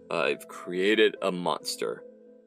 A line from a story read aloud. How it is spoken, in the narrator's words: Weatherman groaned